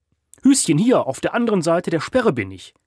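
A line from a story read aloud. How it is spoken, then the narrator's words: Calling out. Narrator (German): rief Gerion Flüssler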